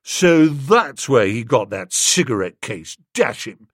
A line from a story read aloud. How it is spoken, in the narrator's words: said Eustace bitterly